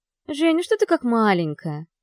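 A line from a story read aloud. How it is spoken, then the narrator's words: Cheerful female friend. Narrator (Russian): Весело отвечает подруга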